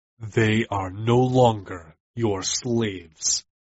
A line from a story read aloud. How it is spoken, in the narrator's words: I informed him, my voice rough from the fight